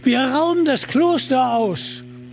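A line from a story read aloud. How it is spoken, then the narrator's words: Shout. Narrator (German): rief Little John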